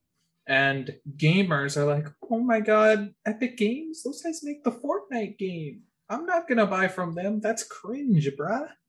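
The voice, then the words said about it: Mocking stereotypical gamer voice. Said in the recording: “That's gamers. That's my gamer impression.”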